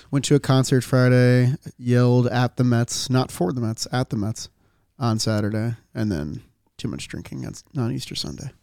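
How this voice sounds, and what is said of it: Slightly hoarse, strained voice. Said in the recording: “Lost my voice a little bit”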